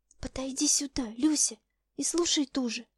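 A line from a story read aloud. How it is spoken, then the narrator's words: Faint agitated broken whisper. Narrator (Russian): Скорее угадала, нежели расслышала я ее взволнованный, прерывающийся шепот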